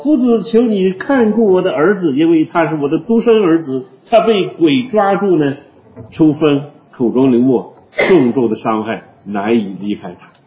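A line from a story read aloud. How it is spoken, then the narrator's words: Shouting. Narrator (Chinese): 其中一个人喊着说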